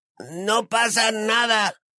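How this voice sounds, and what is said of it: Passable imitation of a wheezing voice. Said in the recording (Spanish): “en una pasable imitación de la jadeante voz de Cola Gusano”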